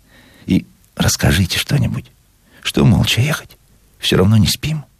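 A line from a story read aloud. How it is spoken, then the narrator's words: Sudden whisper. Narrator (Russian): внезапно зашептала она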